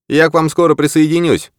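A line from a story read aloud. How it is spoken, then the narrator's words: Shouted after someone. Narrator (Russian): прокричал ему вслед Крейг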